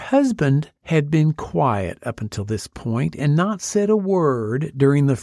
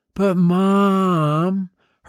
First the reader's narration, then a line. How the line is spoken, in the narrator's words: her daughter whined